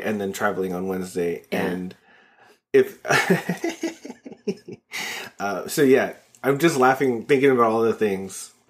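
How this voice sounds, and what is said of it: Wheezy, odd-sounding laugh. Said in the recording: “why are you laughing like that? You sounded like a drunk leprechaun ... I'm still wheezy”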